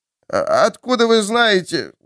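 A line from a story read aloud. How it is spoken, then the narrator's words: Surprised, then wheezing. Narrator (Russian): удивился Луис и тут же захрипел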